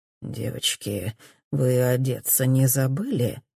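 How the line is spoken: Greasy, leering voice. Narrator (Russian): спрашивает он сальным голосом

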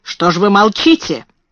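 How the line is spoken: Sharp question. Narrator (Russian): резко спросила мисс Минчин

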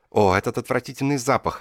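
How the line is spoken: Exclamation. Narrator (Russian): воскликнула она

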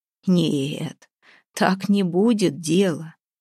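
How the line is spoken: Creaky mocking voice. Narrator (Russian): проскрипел позади Устиньи знакомый насмешливый голос

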